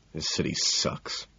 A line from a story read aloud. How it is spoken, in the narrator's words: I mutter